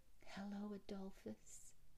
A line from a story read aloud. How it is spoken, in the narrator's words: she whispered